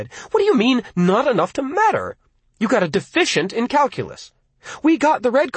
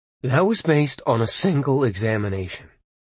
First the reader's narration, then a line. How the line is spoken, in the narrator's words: Arnie said, calmly